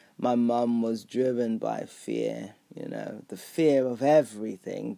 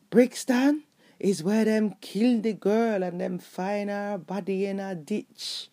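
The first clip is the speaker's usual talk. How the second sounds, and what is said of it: Thick heavy Jamaican accent. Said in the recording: “thick, heavy Jamaican accent”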